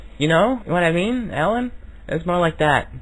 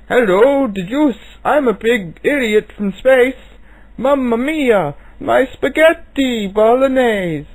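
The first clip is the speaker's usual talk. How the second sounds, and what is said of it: Character voice with put-on accent. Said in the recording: “that's pretty close to his voice, but you don't really have the right accent. It's more like”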